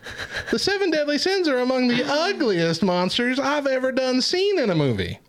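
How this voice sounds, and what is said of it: Put-on Texan Southern accent. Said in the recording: “I can't get out of this accent. I'm stuck with it all night. ... We're recording in Texas now, y'all.”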